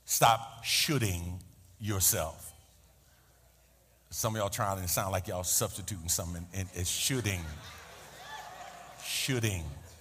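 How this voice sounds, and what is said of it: New York accent. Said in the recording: “my New York accent is clouding the words that are coming out”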